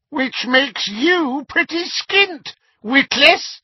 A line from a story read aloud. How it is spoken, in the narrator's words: said a cackling voice